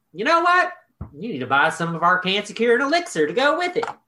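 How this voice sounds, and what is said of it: Imitates another person's voice. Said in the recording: “That was a really good Buck Claflin impression.”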